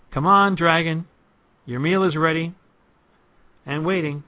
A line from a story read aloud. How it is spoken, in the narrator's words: he called out